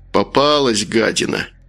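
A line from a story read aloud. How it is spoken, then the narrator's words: Grumbling. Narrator (Russian): проворчал Макар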